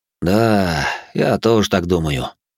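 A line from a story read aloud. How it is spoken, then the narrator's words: Sighing. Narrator (Russian): вздохнул Зод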